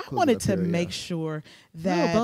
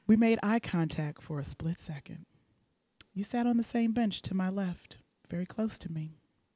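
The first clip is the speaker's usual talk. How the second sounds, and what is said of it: Deep, sultry reading voice. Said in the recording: “In my sexy voice. ... It's a little deep. ... I'm an alto.”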